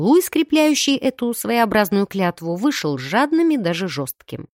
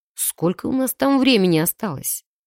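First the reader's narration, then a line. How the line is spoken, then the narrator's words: Sighing male question. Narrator (Russian): вздохнув, уточнил у меня мужчина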